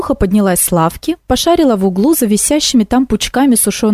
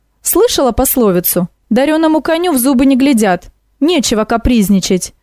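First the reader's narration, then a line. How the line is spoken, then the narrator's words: Sharp scolding shout. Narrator (Russian): прикрикнула Яга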